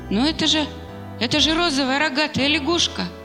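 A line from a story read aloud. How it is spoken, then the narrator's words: Shocked exclamation. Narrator (Russian): потрясенно воскликнул Даниил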